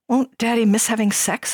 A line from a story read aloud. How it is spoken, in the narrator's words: asked timidly